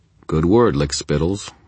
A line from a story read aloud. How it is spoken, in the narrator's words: I replied, keeping my voice bland